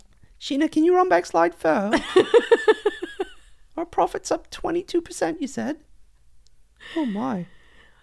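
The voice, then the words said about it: High-pitched put-on British accent. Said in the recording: “speak with a British accent ... Why's your voice up here?”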